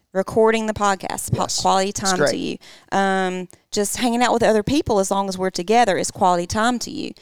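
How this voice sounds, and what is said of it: Southern drawl accent. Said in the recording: “Sink into that Southern draw ... my Southern drawl”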